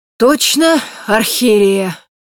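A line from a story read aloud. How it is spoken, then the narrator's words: Gentle husky bass. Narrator (Russian): сказал генерал ласковым хриповатым басом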